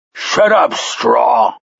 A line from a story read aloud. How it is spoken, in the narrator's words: Haber snapped